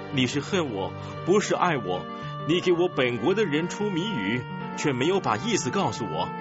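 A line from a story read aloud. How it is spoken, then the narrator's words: Weeping, whining. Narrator (Chinese): 参孙的妻子在丈夫面前哭哭啼啼的说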